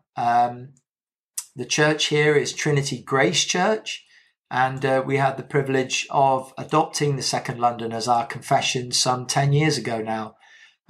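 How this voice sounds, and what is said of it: British accent. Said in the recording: “you can tell from my accent, I'm not from the States. I'm from the UK”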